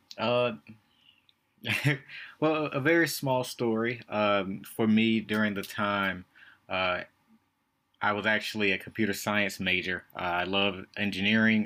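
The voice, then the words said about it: Southern twang accent. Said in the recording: “the southern twang ... Do not apologize for the southern twang.”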